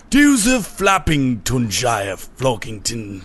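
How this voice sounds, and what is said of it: Posh English accent. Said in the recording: “sounded posh ... it was just like a posh voice ... I knew it was like posh”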